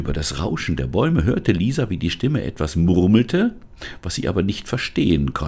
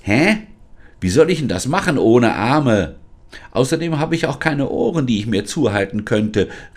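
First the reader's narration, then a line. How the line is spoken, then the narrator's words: Called out. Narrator (German): rief Lisa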